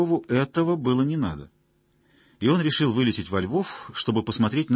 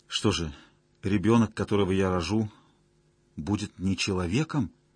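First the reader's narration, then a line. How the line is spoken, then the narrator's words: Quiet question. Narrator (Russian): тихо спросила Зоя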